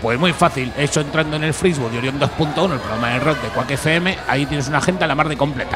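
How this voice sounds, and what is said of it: Madrid Spanish accent. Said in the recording (Spanish): “tienes un acento de Madrid”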